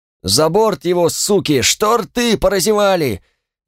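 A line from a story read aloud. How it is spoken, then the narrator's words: Yelled curse, muffled crowd. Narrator (Russian): заорал кто-то за сомкнутыми спинами и выругался, поминая все на свете мерзости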